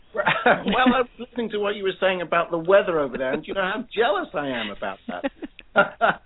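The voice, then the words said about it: British accent. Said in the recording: “lives in the UK ... between his accent and my southern accent”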